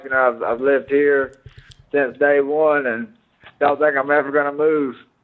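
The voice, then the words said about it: Thick Mississippi Southern accent. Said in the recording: “your accent is so thick. I mean, you're from Mississippi, right?”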